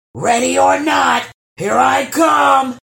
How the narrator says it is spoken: thundered the troll

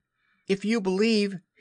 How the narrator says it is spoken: he shouted to them

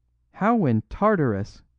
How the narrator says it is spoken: cried Flambeau

